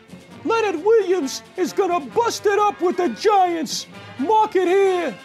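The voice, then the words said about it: High-pitched falsetto voice. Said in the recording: “Shouldn't Mini Spaghetti have a higher voice? ... Can you achieve a high voice? ... I have a good falsetto.”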